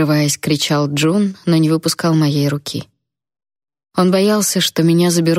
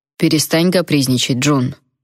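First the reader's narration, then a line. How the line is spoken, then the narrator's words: Stern elderly demand. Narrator (Russian): строго потребовал дедушка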